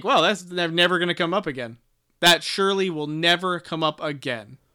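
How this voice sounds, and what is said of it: Sarcastic delivery. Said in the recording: “Are you being sarcastic? ... Yeah, I'm being sarcastic”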